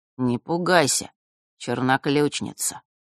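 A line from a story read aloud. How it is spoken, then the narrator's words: Unusually tender voice. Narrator (Russian): Голос Острогора звучал непривычно ласково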